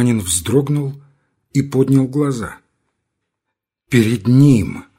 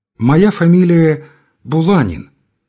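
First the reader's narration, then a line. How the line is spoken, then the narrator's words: Plain answer newcomer. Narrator (Russian): ответил новичок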